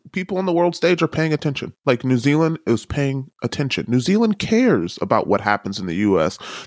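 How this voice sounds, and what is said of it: American accent. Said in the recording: “I can't hide that I'm an American. Every time I open my mouth, I'm an American”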